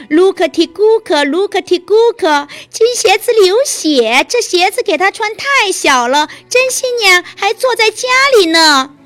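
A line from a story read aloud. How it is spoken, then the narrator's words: Birds calling out. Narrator (Chinese): 两只鸽子叫道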